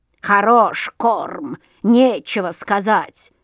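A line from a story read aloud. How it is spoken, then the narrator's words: Crow grumbling. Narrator (Russian): заворчала ворона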